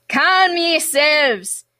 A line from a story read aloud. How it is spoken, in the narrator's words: yelled the captain